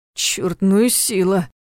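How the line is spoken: Groaning. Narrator (Russian): простонал Ваня

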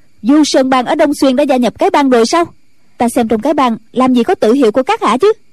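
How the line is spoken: Sudden sharp shout. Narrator (Vietnamese): Ân Tố Tố bỗng quát lên

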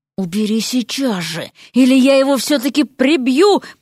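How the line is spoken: Hissed. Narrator (Russian): прошипел Эрик

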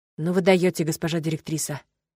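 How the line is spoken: Admiring whisper. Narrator (Russian): прошептал Геннас восхищенно

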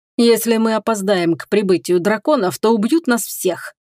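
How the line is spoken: Laughing. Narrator (Russian): рассмеялся первый чародей

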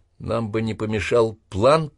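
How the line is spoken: Mutter. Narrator (Russian): пробормотал Лакуми

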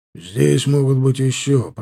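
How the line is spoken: Gloomy. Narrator (Russian): проговорил Черепанов мрачно

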